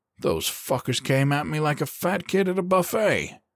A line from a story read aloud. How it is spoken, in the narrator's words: he grunted